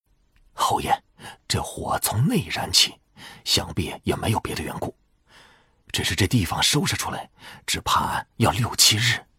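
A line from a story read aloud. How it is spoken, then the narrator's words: Softer, quieter voice. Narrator (Chinese): 贺成……不禁声音都轻了些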